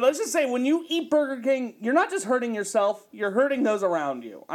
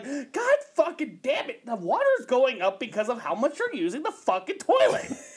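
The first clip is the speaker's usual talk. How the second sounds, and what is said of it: Imitates another person's voice. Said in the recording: “Such a good impression of Mark.”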